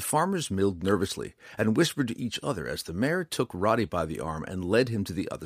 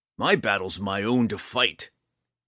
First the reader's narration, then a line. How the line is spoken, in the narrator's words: snarled